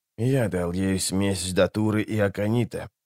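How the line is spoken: Hollow, muffled voice. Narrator (Russian): глухо сказал он

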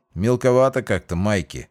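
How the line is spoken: Grumbled. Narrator (Russian): проворчал Ройс

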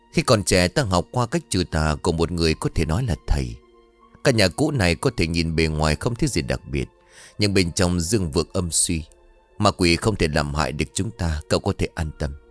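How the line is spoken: Gentle smiling reply. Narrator (Vietnamese): Ông Thân khẽ mỉm cười đáp

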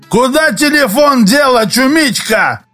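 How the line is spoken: Drunken roar. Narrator (Russian): проревел в ответ невидимый, но, очевидно, пьяный Костя

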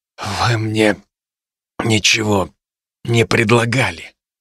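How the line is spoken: Hoarse rasp. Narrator (Russian): прохрипел я

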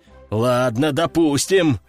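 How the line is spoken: Deep bass. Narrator (Russian): пробасил кардиналов

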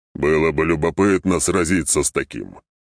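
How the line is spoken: Amused snort. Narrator (Russian): хмыкнул он

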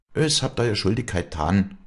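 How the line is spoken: Calm. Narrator (German): sagte Walli ruhig

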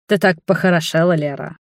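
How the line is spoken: Wry snort. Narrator (Russian): хмыкнул он

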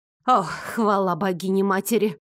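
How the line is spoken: Loud relieved sigh. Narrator (Russian): Шумно вздохнула служанка

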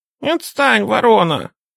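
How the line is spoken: Angry squeaking birds. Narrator (Russian): сердито пропищали славки

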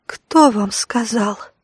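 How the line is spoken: Tense whisper. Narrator (Russian): прошептала бледная и напряженная женщина

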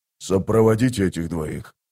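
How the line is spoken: Whisper. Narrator (Russian): прошептал он

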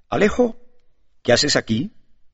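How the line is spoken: Exclaimed in astonishment. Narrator (Spanish): exclamó con asombro

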